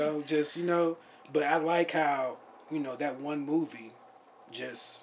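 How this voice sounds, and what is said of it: Usual voice. Nothing is said of it.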